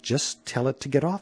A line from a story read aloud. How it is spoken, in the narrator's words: said Aaron